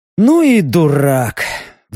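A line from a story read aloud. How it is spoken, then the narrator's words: Sigh. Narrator (Russian): вздохнул Леха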